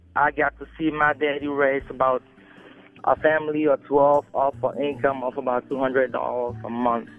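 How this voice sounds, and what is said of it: Cameroonian West African accent. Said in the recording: “if you can't tell from my accent, I'm not originally from around here. I grew up in Cameroon, West Africa.”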